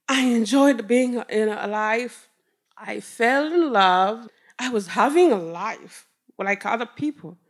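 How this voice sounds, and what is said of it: Rwandan-accented English. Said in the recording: “people hear my accent, they say, hey, where are you from? And I say, Rwanda.”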